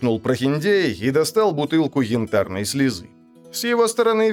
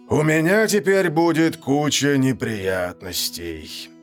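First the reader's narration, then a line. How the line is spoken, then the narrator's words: Sigh. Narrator (Russian): вздохнул Гозма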